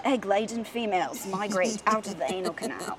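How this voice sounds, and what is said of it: Poor put-on British nature-documentary voice. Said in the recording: “David Attenborough is on Planet Earth and his British voice saying the ... It's my terrible British accent.”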